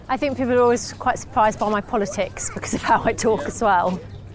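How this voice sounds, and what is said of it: Posh English accent. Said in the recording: “I suppose my accent's considered quite posh”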